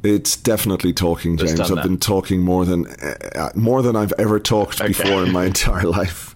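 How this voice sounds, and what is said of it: Croaky, worn voice. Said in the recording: “my voice is a bit a bit on the croaky side because of all the talking”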